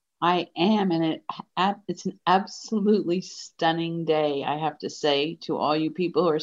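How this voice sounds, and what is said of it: Usual voice. Nothing is said of it.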